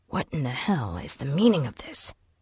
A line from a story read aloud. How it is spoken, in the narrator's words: she hissed at Knox